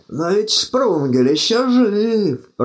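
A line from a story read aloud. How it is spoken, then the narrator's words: Hoarse rasp. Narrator (Russian): прохрипел он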